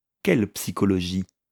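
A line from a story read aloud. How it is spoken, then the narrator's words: Plain question. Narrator (French): demanda Osric Dane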